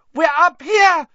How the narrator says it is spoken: Hermione screamed suddenly

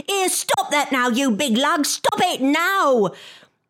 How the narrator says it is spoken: inside the bag, his wife was yelling

